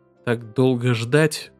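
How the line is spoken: Sad question. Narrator (Russian): грустно спросил Гастон

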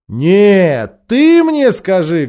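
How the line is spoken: Loud interruption. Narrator (Russian): громко перебила ее Лазарелина, очень любившая привлекать внимание

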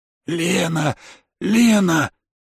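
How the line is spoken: Faltering wheeze. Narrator (Russian): Захрипел я сбивчиво

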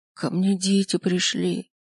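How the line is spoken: Frighteningly hoarse voice. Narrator (Russian): произносит она пугающе охрипшим голосом

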